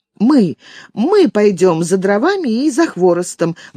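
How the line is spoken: Children cheerfully shouting together. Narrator (Russian): в один голос весело кричат дети

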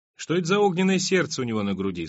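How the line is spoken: Plain. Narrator (Russian): спросил Аллард

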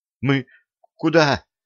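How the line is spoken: Breathed out. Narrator (Russian): выдохнула

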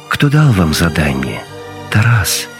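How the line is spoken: Insinuating question. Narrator (Russian): вкрадчиво спросил Гегель

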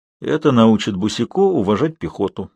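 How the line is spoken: Gloomy remark. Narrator (Russian): мрачно заметил Белларион

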